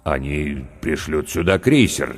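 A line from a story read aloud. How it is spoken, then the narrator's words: Uncertain. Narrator (Russian): неуверенно сказал капитан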